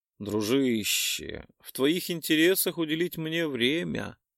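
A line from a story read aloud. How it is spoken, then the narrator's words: Purring over the phone. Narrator (Russian): промурлыкал я в трубку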